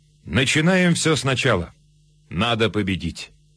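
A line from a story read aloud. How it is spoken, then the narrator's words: Almost calm. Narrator (Russian): Почти спокойно фельдмаршал сказал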